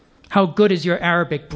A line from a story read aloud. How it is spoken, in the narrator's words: Brandt snarled at Uri